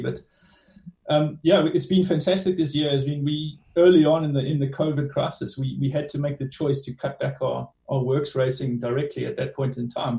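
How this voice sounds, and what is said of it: South African-tinged accent. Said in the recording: “you can tell from my accent, I lived in South Africa for a long time”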